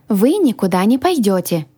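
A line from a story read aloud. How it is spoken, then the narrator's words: Exclaiming. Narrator (Russian): воскликнула я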